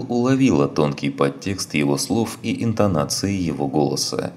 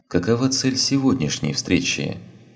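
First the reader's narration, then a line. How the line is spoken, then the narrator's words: Neutral question. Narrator (Russian): спросила Азари намного более нейтральным тоном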